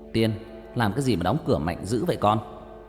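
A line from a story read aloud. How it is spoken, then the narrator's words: Father shouting from below. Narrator (Vietnamese): Ba ở dưới quát vọng lên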